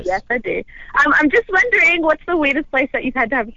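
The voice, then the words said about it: Australian accent. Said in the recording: “from Australia... Holy fucking accent... That is so hot”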